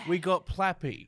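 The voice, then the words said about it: Put-on British accent. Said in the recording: “why are we speaking in a British accent?”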